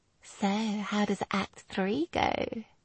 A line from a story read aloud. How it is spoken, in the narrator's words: she asked dreamily